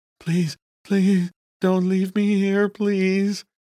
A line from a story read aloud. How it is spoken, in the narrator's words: he breathed